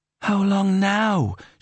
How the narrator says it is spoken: whined

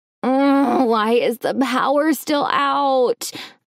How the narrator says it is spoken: groaned

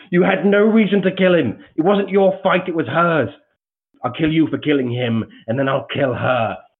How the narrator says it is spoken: a sort of shrieking, and this voice just call out

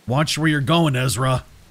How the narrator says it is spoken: he growled, his voice like gravel in the cement mixer

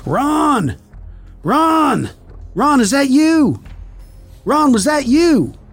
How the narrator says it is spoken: yelling

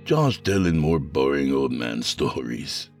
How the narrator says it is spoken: he said as he chuckled

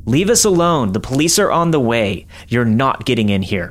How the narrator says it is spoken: he yelled

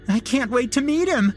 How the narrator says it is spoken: said in a yippy-skippy screech that could break glass

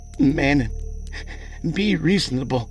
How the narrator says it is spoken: Ebinger pleaded

